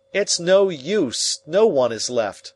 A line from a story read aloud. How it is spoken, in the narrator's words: I cried